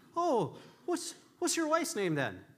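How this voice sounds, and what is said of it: Bad put-on Irish accent. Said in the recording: “a bad Irish accent”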